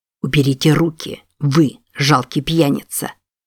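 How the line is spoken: Very quiet, icy. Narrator (Russian): Очень тихо выговорил Де Йонг ледяным тоном

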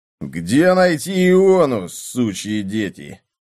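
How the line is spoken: Menacing voice. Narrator (Russian): Голос звучал грозно

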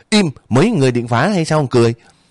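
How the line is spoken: Very loud angry shout. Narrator (Vietnamese): thằng Di đập bàn quát thiệt lớn

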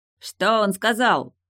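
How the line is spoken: Shout. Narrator (Russian): закричал Ричард Югала

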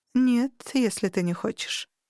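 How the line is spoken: Thoughtful drawl. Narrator (Russian): задумчиво протянула она

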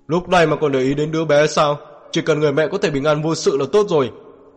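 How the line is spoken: Displeased deep shout. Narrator (Vietnamese): không vui trầm giọng quát lên

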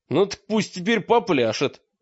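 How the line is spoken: Laughing. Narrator (Russian): засмеялся Мрак

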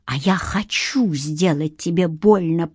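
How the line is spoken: Hissing. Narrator (Russian): прошипел он

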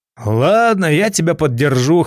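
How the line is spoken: Snorting. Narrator (Russian): хмыкнул

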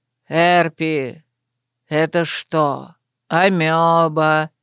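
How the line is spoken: Monotone teasing. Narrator (Russian): монотонным голосом поддел Гоф

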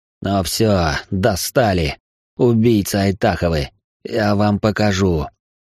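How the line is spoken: Exhaled outburst. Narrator (Russian): Эльтмар выдохнул

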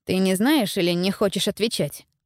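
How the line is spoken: Plain. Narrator (Russian): спросил Стефан

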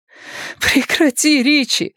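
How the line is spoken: Breathed out. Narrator (Russian): выдохнула она

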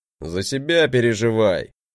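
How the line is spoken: Grumbled. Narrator (Russian): проворчал он

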